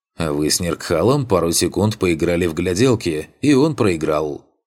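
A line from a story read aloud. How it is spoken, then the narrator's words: Snorting. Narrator (Russian): Хмыкнул Риис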